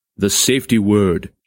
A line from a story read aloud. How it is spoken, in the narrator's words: he intoned solemnly